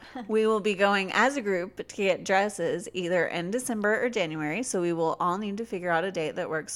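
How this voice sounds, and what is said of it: Usual voice. Nothing is said of it.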